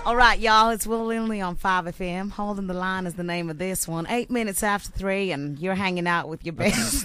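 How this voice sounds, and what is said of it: Put-on American accent. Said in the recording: “That's the wrong American accent. ... There's a four-hour flight from where that accent is from.”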